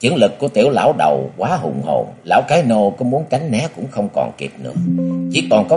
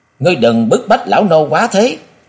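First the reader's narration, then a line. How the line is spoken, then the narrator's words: Old man's sudden roar. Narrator (Vietnamese): Lão bỗng gầm thét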